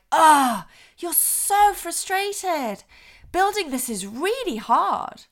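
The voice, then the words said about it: Energetic, matching frustration, but calmer. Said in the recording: “I'm trying to match frustration, but in a calmer way ... a little bit more energetic”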